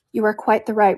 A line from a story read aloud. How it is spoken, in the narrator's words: replied Eleanor calmly